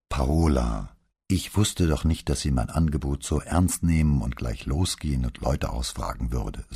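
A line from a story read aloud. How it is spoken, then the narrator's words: Plain. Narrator (German): sagte Brunetti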